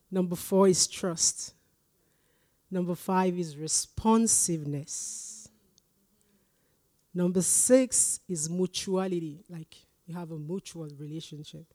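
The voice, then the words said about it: Noticeable non-native English accent. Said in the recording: “Remember, I prayed for grace for you to understand my accent.”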